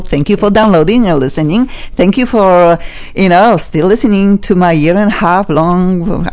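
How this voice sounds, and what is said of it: Strong non-native English accent. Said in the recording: “you got some accent, but not like ours... funky accent like mine”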